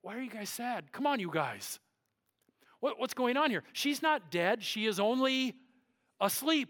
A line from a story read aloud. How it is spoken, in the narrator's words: he says